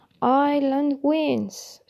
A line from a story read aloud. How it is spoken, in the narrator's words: shouted Baxman, who, like the Irish, seemed to have been taken aback by the sudden end of the match